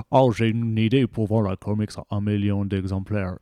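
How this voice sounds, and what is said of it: Deep gruff C.B. Cebulski impression. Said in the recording (French): “avec la grosse voix grave de ... tu fais aussi très bien CB Sebulski”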